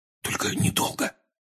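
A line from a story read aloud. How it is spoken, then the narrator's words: Whispered. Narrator (Russian): шепнул Рон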